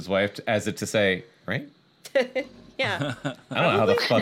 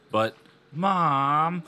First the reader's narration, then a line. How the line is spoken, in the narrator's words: Lindy whined unhappily